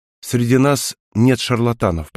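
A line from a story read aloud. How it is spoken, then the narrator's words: Soft. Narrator (Russian): продолжил я мягко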